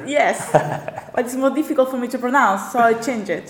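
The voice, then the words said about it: Thick non-native English accent. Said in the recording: “they don't understand me or my accent is really thick or is problematic for them to communicate”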